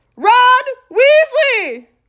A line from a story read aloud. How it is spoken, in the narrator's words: Ron bellowed back, as though he and Uncle Vernon were speaking from opposite ends of a football field